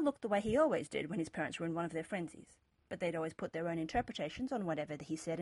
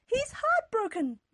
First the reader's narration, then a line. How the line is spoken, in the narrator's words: Mother cried